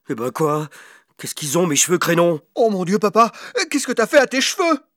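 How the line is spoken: Screaming son. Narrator (French): hurla le fils

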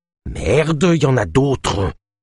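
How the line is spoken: Growled. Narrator (French): grogna Ava

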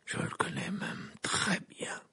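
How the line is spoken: Low voice. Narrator (French): dit Sirius à voix basse

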